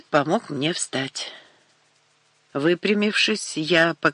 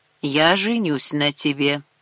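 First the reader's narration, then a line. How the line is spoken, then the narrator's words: Firm voice. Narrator (Russian): твердым голосом произнес Рашид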